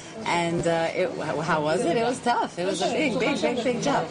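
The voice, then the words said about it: Long Island New York accent. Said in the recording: “Now the accent's coming out.”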